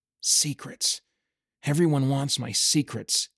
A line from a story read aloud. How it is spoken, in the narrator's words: he muttered